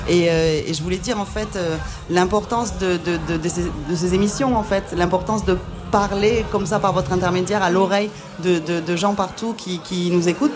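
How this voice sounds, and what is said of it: Slight southwestern French accent. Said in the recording (French): “je viens du Sud-Ouest, ça s'entend un petit peu à mon accent que j'ai pourtant gardé”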